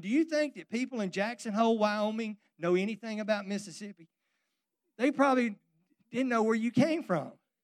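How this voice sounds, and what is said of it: Southern US Mississippi accent. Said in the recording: “this accent I have, and you know what they don't say, are you from Mississippi? They say, are you from Texas?”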